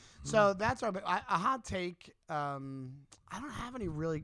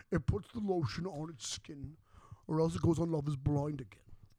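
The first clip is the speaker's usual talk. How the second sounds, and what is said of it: Imitates a creepy movie character's voice. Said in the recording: “Are you doing the fat guy on Love Is Blind or are you doing an impression from Silence of the Lambs?”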